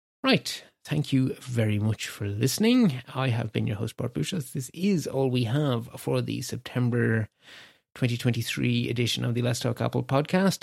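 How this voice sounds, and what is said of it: Slightly scratchy, strained voice. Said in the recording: “As you can probably hear, my voice is getting a little bit scratchy”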